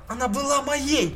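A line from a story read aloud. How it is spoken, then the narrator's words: Shouting. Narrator (Russian): кричала Дел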